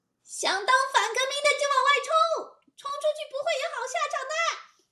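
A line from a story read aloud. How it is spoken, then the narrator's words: High, shrill. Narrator (Chinese): 小辫子个声音又高又尖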